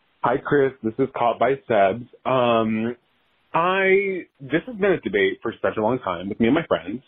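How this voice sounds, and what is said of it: Voice sounds artificially altered. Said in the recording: “Did you guys change this person's voice? ... It literally sounds like a voice changer.”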